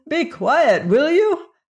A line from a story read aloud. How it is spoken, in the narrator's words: cried the frantic magician